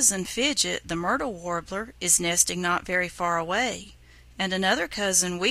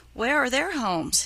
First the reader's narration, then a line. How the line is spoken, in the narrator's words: He asked eagerly